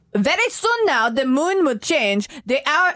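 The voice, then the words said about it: Attempted German accent, Dracula-like. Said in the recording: “in your German accent ... That's not German at all. ... It's more like Dracula”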